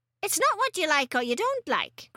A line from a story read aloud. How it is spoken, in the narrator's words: Grandma snapped